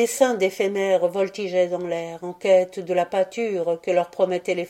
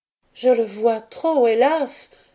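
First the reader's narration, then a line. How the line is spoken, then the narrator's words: Exclaimed. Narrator (French): s'écria Béatrix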